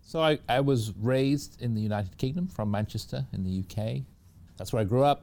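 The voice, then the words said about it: Non-American accent. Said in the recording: “You seem to speak with an accent that tells me that you may not have been born in the United States.”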